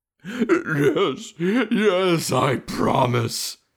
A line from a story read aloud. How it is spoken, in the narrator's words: answered Thunderthump, sobbing